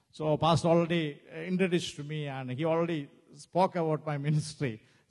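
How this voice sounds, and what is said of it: Non-native English accent. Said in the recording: “English is not my first language, so I don't know whether you will understand my accent.”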